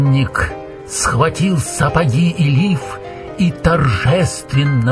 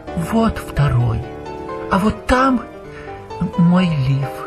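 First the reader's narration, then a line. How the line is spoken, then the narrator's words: Timid. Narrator (Russian): робко сказала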